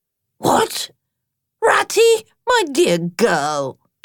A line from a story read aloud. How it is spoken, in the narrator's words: exclaimed Badger in quite a different voice